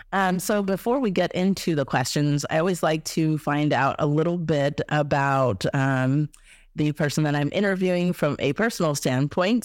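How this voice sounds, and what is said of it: Slightly hoarse, throat-clearing voice. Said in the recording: “I have a little bit of a frog in my throat. So excuse me a little bit if I clear my throat sometimes.”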